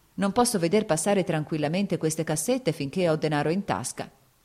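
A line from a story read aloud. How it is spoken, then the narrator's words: Plain. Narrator (Italian): disse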